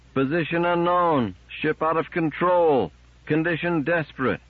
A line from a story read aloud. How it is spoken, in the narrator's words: They shouted in turns and together